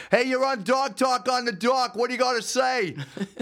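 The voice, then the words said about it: Put-on Boston accent. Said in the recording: “I want to perfect the Boston accent a little bit”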